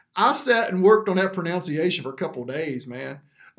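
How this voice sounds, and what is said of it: Western North Carolina accent. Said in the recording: “My Western North Carolinian accent does not lend very well for this.”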